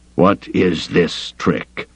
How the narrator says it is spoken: he growled

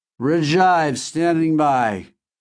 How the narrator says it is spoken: he said drunkenly, slurring his words

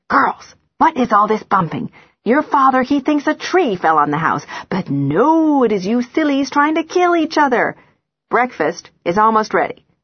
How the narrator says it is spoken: hisses

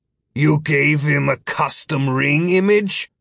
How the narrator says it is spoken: Philip grumbled

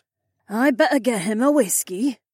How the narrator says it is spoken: Debbie sighed

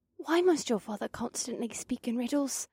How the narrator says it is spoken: Asta whispered to Kaas

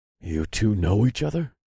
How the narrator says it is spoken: I asked Kyla in an undertone

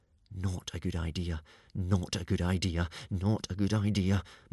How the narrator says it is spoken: muttered Hiccup

